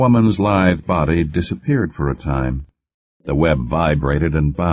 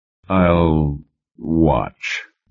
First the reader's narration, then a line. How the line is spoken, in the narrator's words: Bentley said gloomily